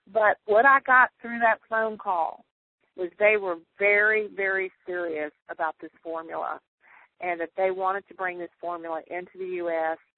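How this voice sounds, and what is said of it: Southern American accent with drawl. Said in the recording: “y'all can tell I'm from the south. So I speak that southern English with a big drawl”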